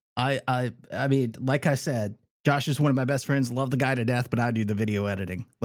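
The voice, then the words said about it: Strained, fading voice. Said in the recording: “I'm not about to cry. I'm losing my voice.”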